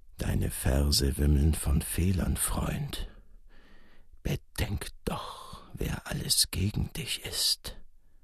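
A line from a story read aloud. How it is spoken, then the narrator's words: Murmured. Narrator (German): der Dante beiseite murmelte er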